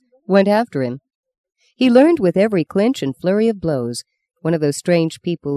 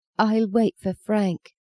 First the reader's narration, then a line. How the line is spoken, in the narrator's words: whispered, so grateful for his calmness and sympathy